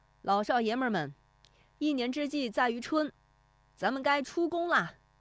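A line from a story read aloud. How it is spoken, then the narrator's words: Shout. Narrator (Chinese): 徐德义他的喊声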